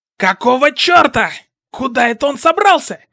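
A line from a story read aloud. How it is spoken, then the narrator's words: Shouted. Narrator (Russian): крикнул Кацуки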